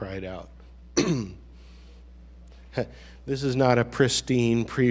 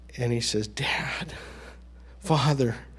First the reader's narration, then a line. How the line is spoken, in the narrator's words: he cries out